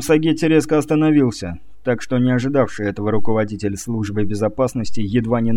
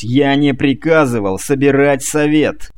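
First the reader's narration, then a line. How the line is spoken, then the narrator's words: Barked. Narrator (Russian): рявкнул Сагетти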